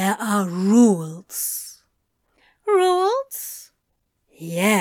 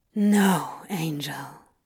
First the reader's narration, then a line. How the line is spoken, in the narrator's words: Crowley sighed